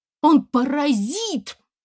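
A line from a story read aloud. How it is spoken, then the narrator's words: Screaming. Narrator (Russian): закричала она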